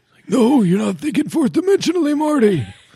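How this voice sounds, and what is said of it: Good Christopher Lloyd impression. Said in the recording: “That's a good Christopher Lloyd impression. ... That's pretty good.”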